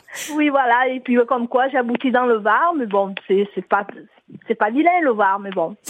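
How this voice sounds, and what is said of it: Marseille French accent. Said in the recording (French): “Mais il vient d'où, ce petit accent? ... Je suis marseillaise.”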